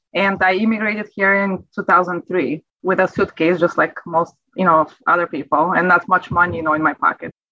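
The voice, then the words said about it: Bulgarian accent. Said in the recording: “as you can sense from my accent, you know, I wasn't born in America. I am from Europe, from Bulgaria”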